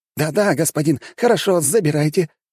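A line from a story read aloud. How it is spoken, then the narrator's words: Mumbling babble. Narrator (Russian): что-то лепетал он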